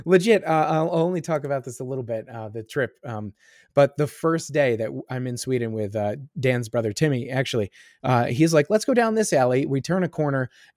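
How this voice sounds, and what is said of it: Congested, scratchy voice. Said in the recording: “I'm still like clogged and my voice is still scratchy”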